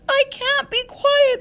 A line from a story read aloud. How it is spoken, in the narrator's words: screamed Wilbur